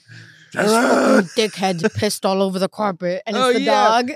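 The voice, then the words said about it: Put-on accent. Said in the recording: “You are on your accents today.”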